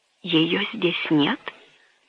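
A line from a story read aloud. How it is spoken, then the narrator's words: Stunned whisper. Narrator (Russian): прошептал механик, ошеломленный этим неожиданным ударом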